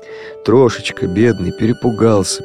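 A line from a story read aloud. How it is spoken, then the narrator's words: Soothing murmur. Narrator (Russian): приговаривает Генка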